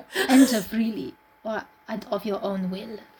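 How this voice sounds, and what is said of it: Foreign-accented count character voice. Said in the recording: “in an excellent English but with a strange intonation ... for my accent ... Oh, it's excellent. I love it.”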